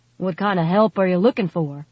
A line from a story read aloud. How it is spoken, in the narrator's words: Gage asked, his voice gruff and unfriendly